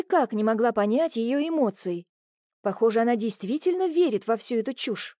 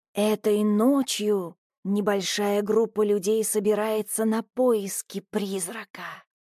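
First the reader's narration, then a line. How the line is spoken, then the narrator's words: Ominous voice. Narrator (Russian): зловещим голосом сообщила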